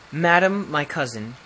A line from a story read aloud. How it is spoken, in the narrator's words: said he